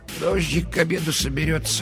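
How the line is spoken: Mutter. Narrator (Russian): пробормотала

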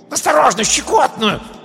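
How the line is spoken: Shouted. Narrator (Russian): крикнул

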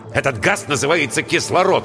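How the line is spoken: Irritated. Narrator (Russian): раздраженно сказал Воронцов

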